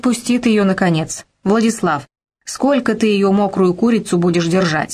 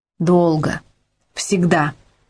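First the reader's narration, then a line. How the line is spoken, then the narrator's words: Plain. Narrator (Russian): сказал парень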